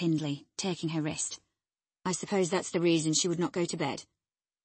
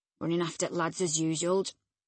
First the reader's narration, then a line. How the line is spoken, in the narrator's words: croaked Joseph, to thrust in his evil tongue